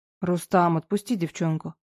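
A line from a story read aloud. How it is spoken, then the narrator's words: Quiet but confident young man. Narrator (Russian): тихо, но уверенно произнес парень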